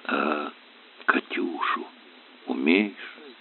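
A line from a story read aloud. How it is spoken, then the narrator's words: Quiet question. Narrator (Russian): тихо спросил Сашка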